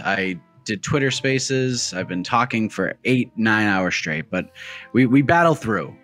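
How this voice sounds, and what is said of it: Raspy, slightly off voice. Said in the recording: “your voice seems a little off... Was your voice so a little raspy? ... Yes”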